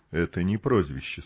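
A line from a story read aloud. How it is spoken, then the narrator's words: Quiet. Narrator (Russian): сказал он негромко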